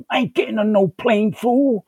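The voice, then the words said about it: Imitates another person's voice. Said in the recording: “I do a great impression, because I've done it so much, of Mr. T from the A-Team.”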